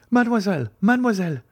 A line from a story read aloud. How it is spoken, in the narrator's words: exclaimed a voice from behind the trees